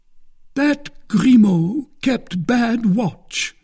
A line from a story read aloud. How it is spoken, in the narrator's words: cried Porthos, who had a great inclination to vent his ill humour on somebody